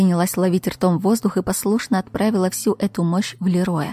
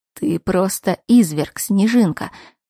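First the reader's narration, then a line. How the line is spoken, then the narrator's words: Hoarse rasp. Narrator (Russian): прохрипел он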